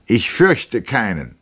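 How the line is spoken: Loud. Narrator (German): sagte er laut

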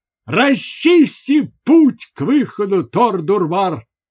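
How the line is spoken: Exclaiming. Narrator (Russian): воскликнул он

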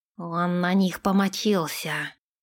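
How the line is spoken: Hoarse, angry reply. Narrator (Russian): Хрипло ответил Нэш, раздувая ноздри

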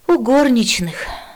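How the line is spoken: Resigned sigh. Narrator (Russian): вздохнул ученик, смирясь с перспективой стать посмешищем

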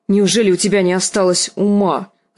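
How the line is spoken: Barked. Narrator (Russian): рявкнула Лиза

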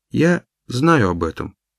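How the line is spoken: Calm. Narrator (Russian): спокойно ответила она

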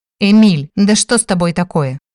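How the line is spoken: Confused exclamation. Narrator (Russian): воскликнула я, не зная, как реагировать на его намеки

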